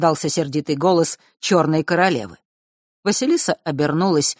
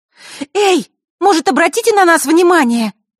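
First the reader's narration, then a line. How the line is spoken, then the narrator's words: Sudden shout. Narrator (Russian): вдруг выкрикнула Василиса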